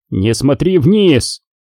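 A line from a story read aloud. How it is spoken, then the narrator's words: Sharp. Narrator (Russian): резко проговорил Куай-Гон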